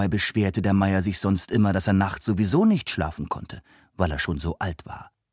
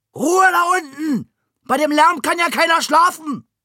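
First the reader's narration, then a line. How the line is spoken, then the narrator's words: Old man bellowing. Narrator (German): der alte Meier brüllte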